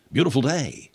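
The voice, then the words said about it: William Shatner impression. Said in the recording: “your William Shatner impression. That's the extent of my William Shatner impression.”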